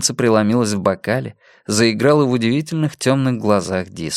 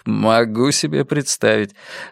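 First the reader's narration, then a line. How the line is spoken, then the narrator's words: Laughing. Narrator (Russian): рассмеялся Йона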